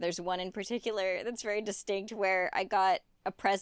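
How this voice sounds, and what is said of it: Usual voice. Nothing is said of it.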